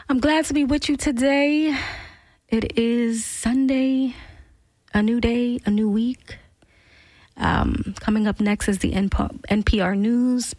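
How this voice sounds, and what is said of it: Cracky, slightly hoarse voice. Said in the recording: “my voice is a little cracky there”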